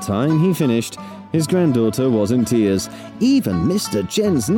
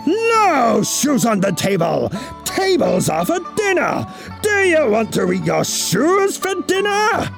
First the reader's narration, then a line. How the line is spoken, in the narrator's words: he roared